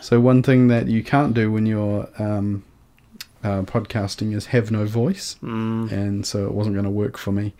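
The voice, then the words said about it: Slightly croaky, dry voice. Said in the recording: “losing my voice ... I still am a little bit croaky and a little bit dry in parts”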